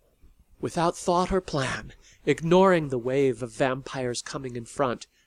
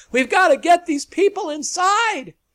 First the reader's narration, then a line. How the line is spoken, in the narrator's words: Voices shouted